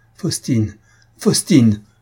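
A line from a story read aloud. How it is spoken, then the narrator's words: Heartbroken cry. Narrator (French): s'écria-t-il avec un accent déchirant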